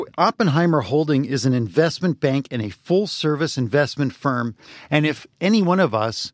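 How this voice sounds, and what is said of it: Usual voice. Nothing is said of it.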